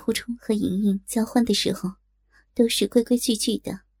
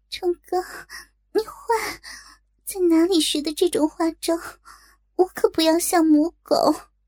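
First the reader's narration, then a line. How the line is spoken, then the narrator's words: Breathless, coy. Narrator (Chinese): 莹莹娇喘吁吁，好似依然沉浸在刚才的快乐中，娇羞道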